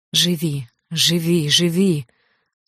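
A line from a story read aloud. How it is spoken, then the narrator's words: Repeated until hoarse, tired. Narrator (Russian): пока совсем не охрипла и не устала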